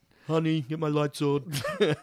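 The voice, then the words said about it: Imitates another person's voice. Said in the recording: “I don't know why that was the accent I went with.”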